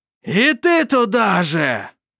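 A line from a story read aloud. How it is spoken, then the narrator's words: Triumphant shout. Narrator (Russian): прокричал, торжествуя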